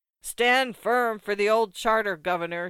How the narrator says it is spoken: shouted the crowd

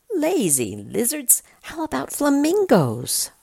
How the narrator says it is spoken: The monkey exclaims

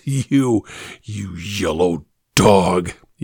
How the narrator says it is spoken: he spat out vehemently

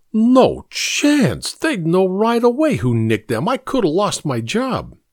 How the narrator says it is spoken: Chuck said in a shocked tone

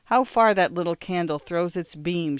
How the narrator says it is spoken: exclaimed

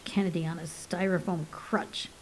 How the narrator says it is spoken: he muttered

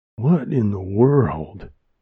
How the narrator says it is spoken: Wilma asked in a breathy and perplexed voice

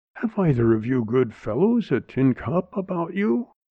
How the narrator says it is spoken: he managed to gasp

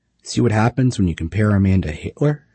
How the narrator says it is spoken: they cried

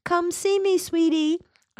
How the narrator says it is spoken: urged in a falsetto voice

